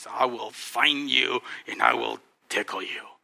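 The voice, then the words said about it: Deep playful monster voice. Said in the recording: “I have this deep voice.”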